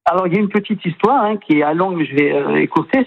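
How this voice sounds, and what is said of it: Southern French accent. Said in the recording (French): “Vous avez un petit accent... un accent plein de soleil. Vous êtes originaire du sud de la France.”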